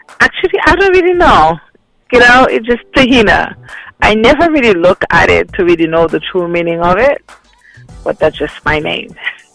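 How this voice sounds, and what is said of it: Slight Haitian accent. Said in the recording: “I detect a small accent there.”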